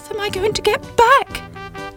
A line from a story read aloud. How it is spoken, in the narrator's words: cried